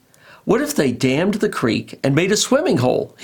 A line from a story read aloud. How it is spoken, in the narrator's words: asked excitedly